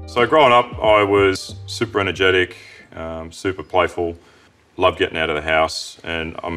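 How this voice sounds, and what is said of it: Deep voice, Australian accent. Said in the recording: “Melbourne's Deepest Voice Award ... I prefer ... Australian accent”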